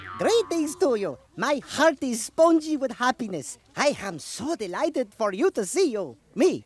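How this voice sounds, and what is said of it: Dreamy foreign-accented character voice. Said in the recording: “What a dreamy accent.”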